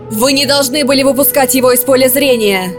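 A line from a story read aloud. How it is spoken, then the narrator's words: Shouting woman. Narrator (Russian): закричала она Вранешу и Милару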